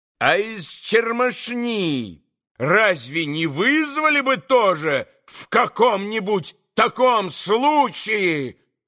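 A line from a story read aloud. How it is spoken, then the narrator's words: Sudden loud yell. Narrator (Russian): Завопил вдруг Иван Федорович, неизвестно для чего, вдруг ужасно возвысив голос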